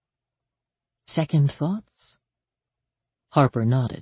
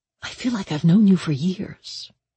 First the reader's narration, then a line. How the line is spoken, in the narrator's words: Danny whispered